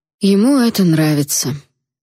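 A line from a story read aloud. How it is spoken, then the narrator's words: Detached voice. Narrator (Russian): отстраненным голосом объяснил Алит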